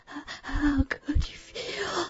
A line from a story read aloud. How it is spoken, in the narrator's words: Sharon cried, her voice wavering with each violent thrust